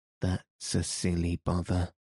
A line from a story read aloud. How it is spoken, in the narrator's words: she murmured